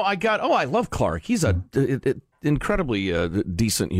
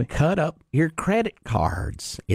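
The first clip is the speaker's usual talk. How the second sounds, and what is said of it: Imitates another person's voice. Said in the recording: “Clark Howard impersonation... My dead on perfect Clark Howard impersonation.”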